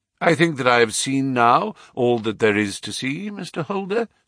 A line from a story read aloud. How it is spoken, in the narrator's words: said he